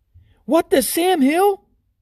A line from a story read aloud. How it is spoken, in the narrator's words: gasped Mr